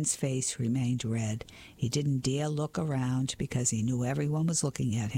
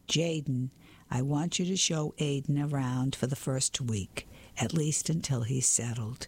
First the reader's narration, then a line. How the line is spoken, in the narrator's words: said Mrs